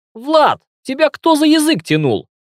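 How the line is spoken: Indignant question. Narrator (Russian): Возмущенно спросил Нурлан

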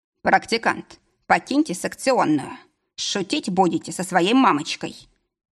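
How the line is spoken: Stern. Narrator (Russian): произнес строго

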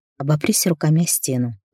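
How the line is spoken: Maddening whisper. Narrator (Russian): прошептал сводящий с ума голос

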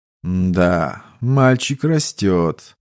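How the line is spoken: Old man muttering to himself. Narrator (Russian): пробормотал себе под нос старик

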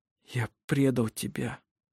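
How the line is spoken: Whisper. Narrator (Russian): прошептал он

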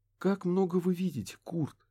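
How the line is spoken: Noisy exhale. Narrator (Russian): Лемон шумно выдохнула

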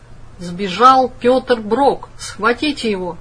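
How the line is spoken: Thundering voice. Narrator (Russian): сверху прогремел голос

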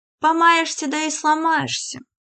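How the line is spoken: Adding, then laughing. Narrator (Russian): добавила Христина и засмеялась

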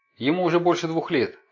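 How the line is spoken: Shouting. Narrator (Russian): кричала

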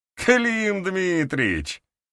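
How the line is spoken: Chuckling. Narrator (Russian): хохотнул Дементий

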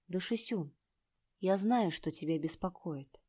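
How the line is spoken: Quiet. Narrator (Russian): тихо сказал

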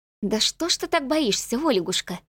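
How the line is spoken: Gentle smiling young woman. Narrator (Russian): Ласково улыбнулась девушка

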